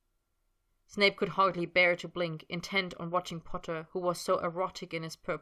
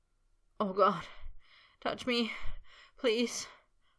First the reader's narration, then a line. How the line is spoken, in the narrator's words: Potter moaned